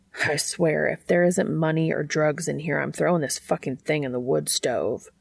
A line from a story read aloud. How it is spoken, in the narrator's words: Dean muttered to himself